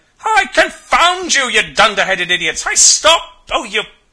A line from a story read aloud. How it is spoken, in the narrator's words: roars himself red in the face and curses everything he knows